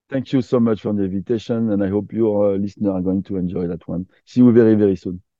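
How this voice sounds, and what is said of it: French-accented English. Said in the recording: “your French accent again, because I'm a sucker for accents”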